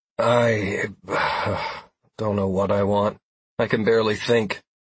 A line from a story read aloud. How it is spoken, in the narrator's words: I said with dreary eyes and slurred words